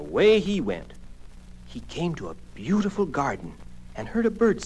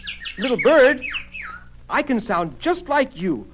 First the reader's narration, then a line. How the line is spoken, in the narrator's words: cried Clarence